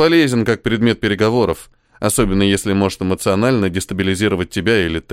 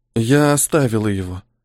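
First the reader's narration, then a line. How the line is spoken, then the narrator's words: Young woman sighing. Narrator (Russian): вздохнула девушка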